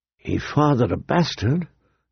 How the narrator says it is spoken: a small voice whispered

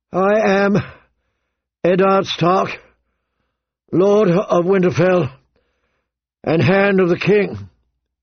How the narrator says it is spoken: he said more loudly, his voice carrying across the plaza

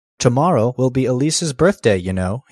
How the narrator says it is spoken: he said

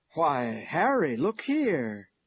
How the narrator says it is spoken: exclaimed Uncle Ben

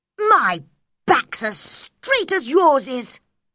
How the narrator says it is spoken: he shouted

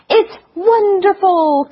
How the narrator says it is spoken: cried Ludwig

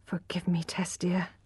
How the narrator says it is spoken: he whispered

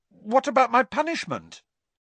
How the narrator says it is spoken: blurted Harry

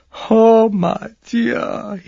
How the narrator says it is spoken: he groaned at last

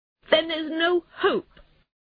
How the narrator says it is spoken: cried Toad miserably

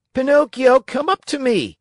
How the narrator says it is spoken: shouted Harlequin

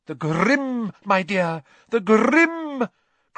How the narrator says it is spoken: cried Professor Trelawney, who looked shocked that Harry hadn't understood

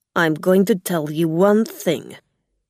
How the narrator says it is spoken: Gog said angrily

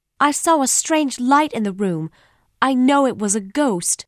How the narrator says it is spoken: I cried, holding tightly on to Bessie

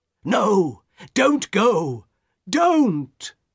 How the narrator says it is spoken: her husband cried again

